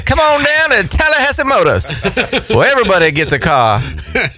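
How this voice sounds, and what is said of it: Put-on regional accent. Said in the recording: “as soon as you hear a certain word, you go right into the accent.”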